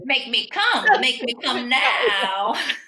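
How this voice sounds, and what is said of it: Comedic voice of a talking vagina. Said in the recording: “your impression of a vagina”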